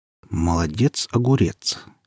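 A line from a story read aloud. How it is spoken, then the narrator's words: Uncertain mutter. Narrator (Russian): не совсем уверенно пробормотал барабанщик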